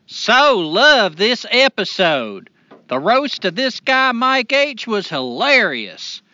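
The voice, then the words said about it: Put-on rural hick accent. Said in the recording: “in my best hick voice”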